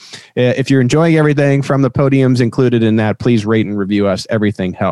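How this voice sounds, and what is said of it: Usual voice. Nothing is said of it.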